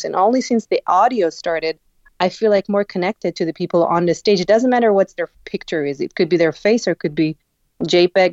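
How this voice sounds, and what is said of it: Non-native English accent. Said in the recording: “hear my ridiculous accent ... my English is not perfect”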